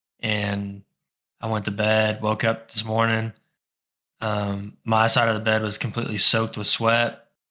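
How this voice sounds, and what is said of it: Sore, strained sick voice. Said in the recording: “you can kind of hear, like my voice is still kind of like hurting a little bit”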